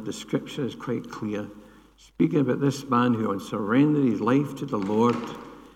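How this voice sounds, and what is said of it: Scottish accent. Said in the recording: “a guy with a Scottish accent”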